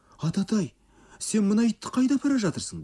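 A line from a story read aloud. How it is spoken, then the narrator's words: Imploring. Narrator (Kazakh): деді Сабура жалбарына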